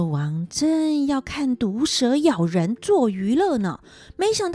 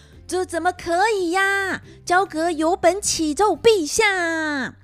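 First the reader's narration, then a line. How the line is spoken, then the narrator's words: Shouting. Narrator (Chinese): 焦阁大叫着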